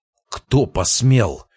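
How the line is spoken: Angry exhale. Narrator (Russian): зло выдохнул Карпов

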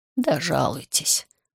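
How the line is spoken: Tired, dismissive. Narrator (Russian): устало отмахнулся юрист

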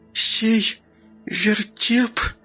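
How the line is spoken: Forced-out words. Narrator (Russian): выдавила Ника

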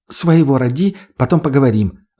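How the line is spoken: Girl snapping back. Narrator (Russian): огрызнулась девушка

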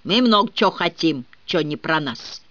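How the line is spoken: Growled. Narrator (Russian): прорычал он

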